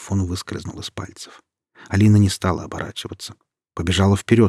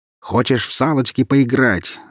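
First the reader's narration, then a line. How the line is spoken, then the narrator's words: Yelled. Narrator (Russian): заорал парень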